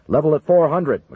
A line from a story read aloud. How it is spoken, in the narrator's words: McConnell barked